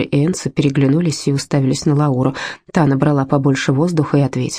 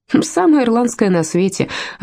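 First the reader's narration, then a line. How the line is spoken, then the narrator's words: Laughing. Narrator (Russian): рассмеялся Колин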